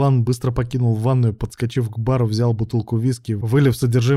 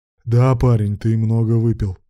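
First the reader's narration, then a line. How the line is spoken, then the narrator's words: Grumbling. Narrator (Russian): проворчал Руслан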